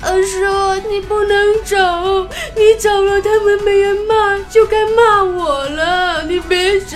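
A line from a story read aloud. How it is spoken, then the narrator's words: Child crying. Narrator (Chinese): 小侄子居然抱着洪坤的大腿哭着说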